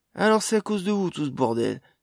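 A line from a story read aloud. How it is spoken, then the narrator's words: Dwarf cried out. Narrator (French): s'écria un des autres nains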